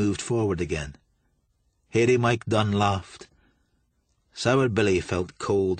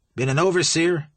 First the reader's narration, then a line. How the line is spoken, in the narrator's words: Billy said